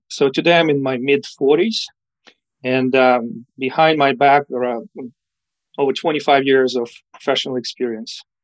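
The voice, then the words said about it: Ukrainian accent. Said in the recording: “I spent my childhood in Ukraine, and that's where I get my accent from.”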